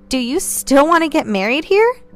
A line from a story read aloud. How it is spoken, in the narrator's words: Vivian gave a small chuckle